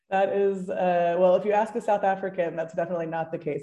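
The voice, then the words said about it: Softened American accent. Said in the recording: “I was expecting a stronger American accent and it seems that it's been diluted over the years ... They think that I have a very strong American accent.”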